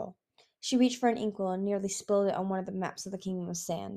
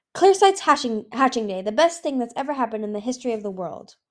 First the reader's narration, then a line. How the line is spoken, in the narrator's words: Darkstalker cried